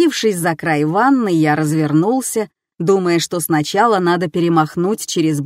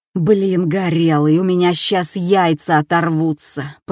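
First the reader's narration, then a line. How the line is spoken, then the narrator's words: Groaning. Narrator (Russian): простонал я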